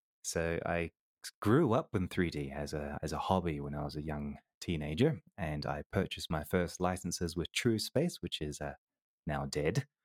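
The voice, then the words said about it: New Zealand-tinged English accent. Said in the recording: “I'm also half Kiwi, so that's why I have that accent”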